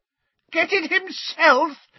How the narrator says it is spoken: shrieked Bellatrix, over a cackle of mad laughter

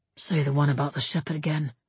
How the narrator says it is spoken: Eivind whispered

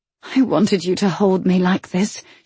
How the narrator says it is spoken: she whispered

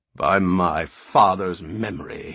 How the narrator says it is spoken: he rumbled savagely

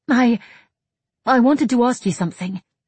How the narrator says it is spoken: Margaret blurted out eventually

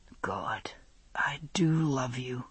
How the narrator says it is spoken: he whispered, as though to himself

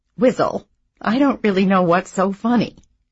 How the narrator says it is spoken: she'd started laughing herself, though she said

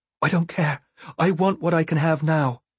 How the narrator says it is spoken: said breathlessly

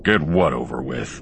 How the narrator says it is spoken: Han growled

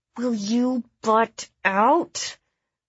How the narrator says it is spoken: I said to him through clenched teeth

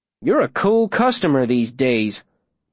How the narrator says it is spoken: Davy says, his voice scornful

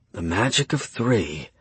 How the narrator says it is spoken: Stephen whispered

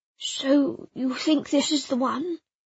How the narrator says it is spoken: he spoke quietly, his refined accent jarringly out of place

